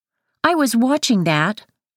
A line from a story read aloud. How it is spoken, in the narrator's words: Devin says